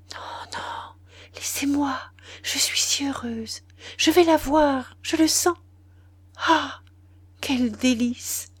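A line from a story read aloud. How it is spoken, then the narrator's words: Faint breathy voice. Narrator (French): Elle dit alors, d'une voix légère comme un souffle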